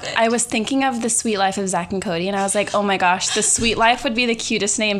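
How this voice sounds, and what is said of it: Valley girl voice. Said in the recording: “has a valley girl voice.”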